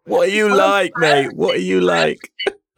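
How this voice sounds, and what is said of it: Put-on Cockney accent. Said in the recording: “I can say that in a Cockney accent”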